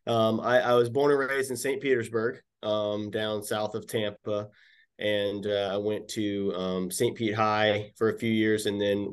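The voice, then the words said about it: Hoarse, strained voice. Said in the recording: “I'm getting over a cold here, so my voice is a little shot”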